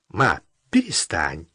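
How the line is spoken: Slightly irritated. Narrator (Russian): Чуть раздраженно отстранялся Володя

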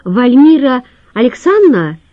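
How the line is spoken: Shout. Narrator (Russian): крикнул он

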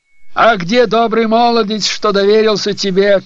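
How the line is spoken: Shout. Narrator (Russian): крикнула она

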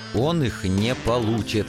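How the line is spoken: Growling. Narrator (Russian): рычал я

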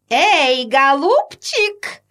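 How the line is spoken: Very loud shout. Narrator (Russian): так громко крикнула Анна Петровна

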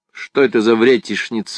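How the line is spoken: Plain. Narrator (Russian): спросила Майетта

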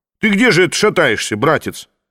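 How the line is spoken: Stern shout. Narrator (Russian): строго прикрикнул Маныкин

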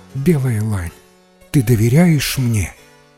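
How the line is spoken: Tender. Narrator (Russian): ласково погладив ее, сказала

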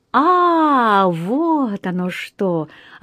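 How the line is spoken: Puzzled drawl. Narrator (Russian): озадаченно протянул мистер Чорч

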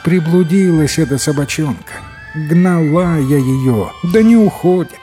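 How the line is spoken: Relieved old woman's sigh. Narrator (Russian): Старуха вздохнула с облегчением и говорит

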